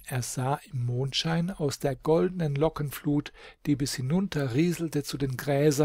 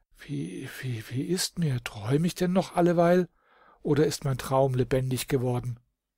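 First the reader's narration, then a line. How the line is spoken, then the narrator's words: Stammering. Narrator (German): Der stammelte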